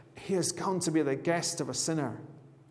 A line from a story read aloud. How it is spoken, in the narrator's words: All the people began to mutter